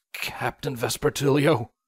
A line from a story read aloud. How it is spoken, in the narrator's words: Broadsword weakly whispered